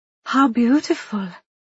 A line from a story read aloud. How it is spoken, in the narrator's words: Benita exclaimed